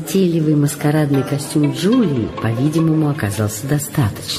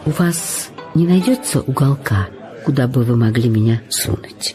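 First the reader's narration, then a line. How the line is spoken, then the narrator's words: Uncertain. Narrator (Russian): неуверенно произнесла Джулия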